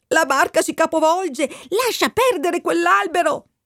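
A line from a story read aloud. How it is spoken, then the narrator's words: Woman shrieking. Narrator (Italian): la donna dalla sponda strillava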